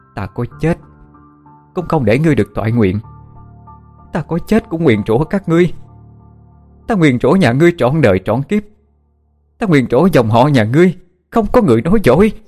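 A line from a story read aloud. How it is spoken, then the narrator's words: Grieving mother, frantic scream. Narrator (Vietnamese): Vị phu nhân vì mất con, tâm trí không còn bình tĩnh, bà hét lên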